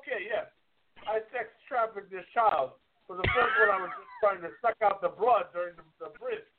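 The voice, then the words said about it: Put-on accent. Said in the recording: “What is that accent? ... Fantastic delivery.”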